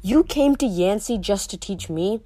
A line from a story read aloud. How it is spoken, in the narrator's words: I asked